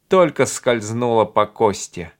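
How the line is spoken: Hoarse amused laugh. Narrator (Russian): хрипло рассмеялся Джеймс, словно речь шла о забавной лесной охоте

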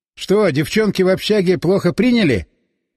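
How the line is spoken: Loud question. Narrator (Russian): просил громко

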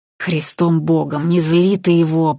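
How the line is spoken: Silent inner plea. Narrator (Russian): про себя взмолилась Надежда

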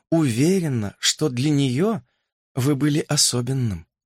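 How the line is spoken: Soft addition. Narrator (Russian): мягко добавила она

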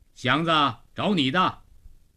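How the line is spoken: Called out. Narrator (Chinese): 老程 在门洞里叫了声

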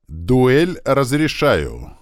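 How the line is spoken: Loud proclamation, prince. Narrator (Russian): громко возвестил принц

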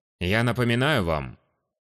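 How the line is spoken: Dry. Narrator (Russian): сухо продолжил мэтр

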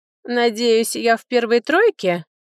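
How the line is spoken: Laughing. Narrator (Russian): рассмеялся лорд Мирон

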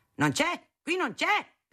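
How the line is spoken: Shouting. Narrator (Italian): gridava

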